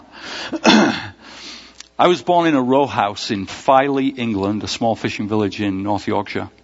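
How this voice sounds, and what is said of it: English accent. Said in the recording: “especially with that accent”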